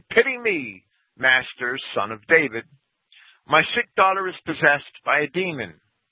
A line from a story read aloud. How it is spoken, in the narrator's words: a Canaanite woman from those borders, having come out, cried out, saying